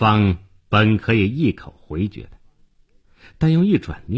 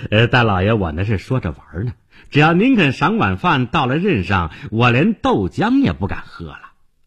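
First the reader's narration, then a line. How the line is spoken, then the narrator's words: Bitter laugh. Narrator (Chinese): 店主听出来是在讽刺他，他惨笑着说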